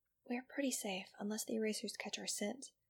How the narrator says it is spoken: the Guzman whispered to Iggy

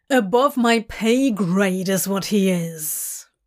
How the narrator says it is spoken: Crowley growls

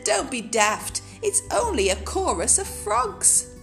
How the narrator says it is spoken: Night Monkey laughed and said

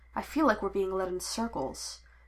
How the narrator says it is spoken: Shakti murmured under her breath

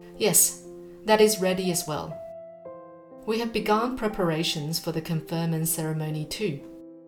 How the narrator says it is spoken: the minister said

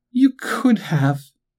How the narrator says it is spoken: sobbed

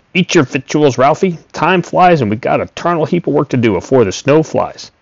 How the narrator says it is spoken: he snapped

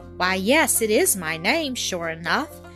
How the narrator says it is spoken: exclaimed

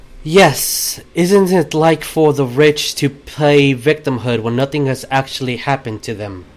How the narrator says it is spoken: very calmly say

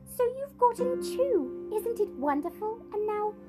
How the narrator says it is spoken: she cried

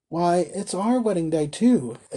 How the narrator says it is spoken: exclaimed the carrier

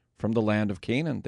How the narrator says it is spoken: they replied

